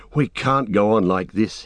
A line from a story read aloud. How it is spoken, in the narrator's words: he panted